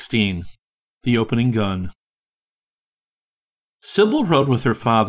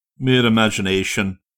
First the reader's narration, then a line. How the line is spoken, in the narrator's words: he returned gruffly